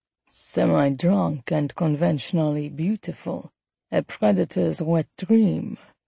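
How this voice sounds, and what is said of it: Strong smooth raspy French accent. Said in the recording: “He had a strong French accent, smooth and raspy.”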